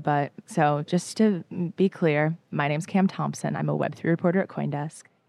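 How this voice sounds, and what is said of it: Tired, fading, slightly hoarse voice. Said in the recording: “All of us are a little bit tired. My voice is kind of going away.”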